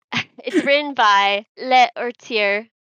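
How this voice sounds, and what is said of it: Bad put-on French accent. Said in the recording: “I'm going to say this and butcher it ... That was a really bad French accent.”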